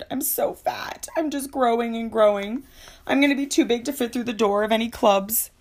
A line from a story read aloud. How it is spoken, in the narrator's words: I ... moaned